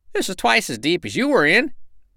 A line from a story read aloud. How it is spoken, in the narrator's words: cried